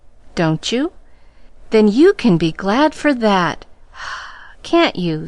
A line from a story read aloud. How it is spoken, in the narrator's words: sighed Pollyanna